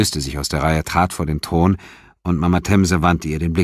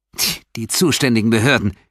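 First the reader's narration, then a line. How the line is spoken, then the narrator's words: Contemptuous hiss. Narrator (German): zischte verächtlich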